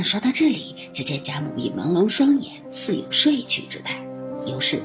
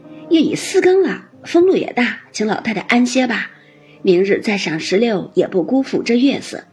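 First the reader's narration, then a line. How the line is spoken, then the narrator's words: Several voices, laughing. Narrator (Chinese): 王夫人等笑道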